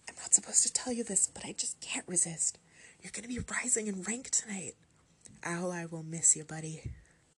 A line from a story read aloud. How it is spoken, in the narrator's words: she whispered excitedly